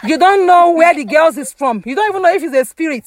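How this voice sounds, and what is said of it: Yelling, loud raised voice. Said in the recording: “why are you yelling?”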